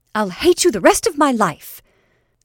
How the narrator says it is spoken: said Jane fiercely

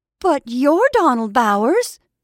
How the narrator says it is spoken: she exclaimed

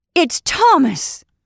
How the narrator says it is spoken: cried Sarah Riding

